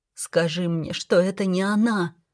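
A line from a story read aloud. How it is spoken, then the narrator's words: Strained, forced out. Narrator (Russian): выдавила я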